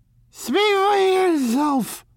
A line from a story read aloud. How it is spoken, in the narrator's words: cried Miss Baedeker violently